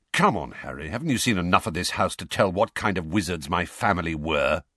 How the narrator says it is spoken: said Sirius testily

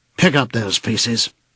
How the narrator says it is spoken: he said sharply

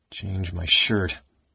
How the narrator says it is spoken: he muttered thickly

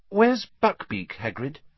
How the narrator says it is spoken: said Hermione hesitantly

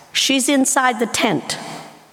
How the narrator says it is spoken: Abraham replied

